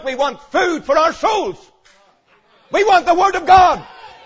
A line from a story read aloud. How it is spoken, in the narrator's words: they cried out